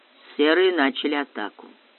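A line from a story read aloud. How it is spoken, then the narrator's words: Calm. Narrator (Russian): спокойно сказал Баренц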